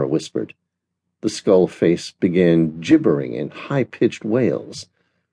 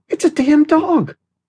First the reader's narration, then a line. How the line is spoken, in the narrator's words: Stan gasped